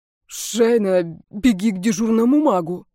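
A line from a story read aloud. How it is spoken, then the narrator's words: Strained, forced out. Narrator (Russian): с трудом выдавил из себя эльф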